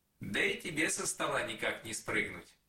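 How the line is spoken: Plain. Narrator (Russian): сказал Автимофей

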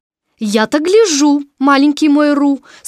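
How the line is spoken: Rather stern. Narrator (Russian): сказала Кенга довольно строго

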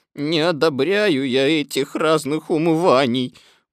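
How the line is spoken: Grumbling. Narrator (Russian): ворчал Иа

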